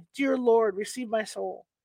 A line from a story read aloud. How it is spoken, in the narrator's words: She cried out finally